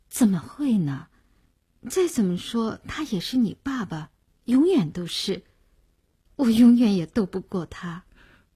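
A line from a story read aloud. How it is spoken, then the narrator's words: Sighing. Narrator (Chinese): 林星摇着头叹了口气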